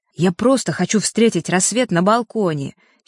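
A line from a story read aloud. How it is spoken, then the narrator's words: Angry. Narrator (Russian): сердито произнес Серега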